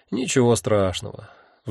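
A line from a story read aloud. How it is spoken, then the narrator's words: Sigh. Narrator (Russian): вздохнул я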